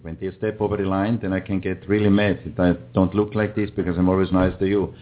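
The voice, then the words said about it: Speaks with a noticeable accent. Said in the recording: “that accent scares the shit out of me”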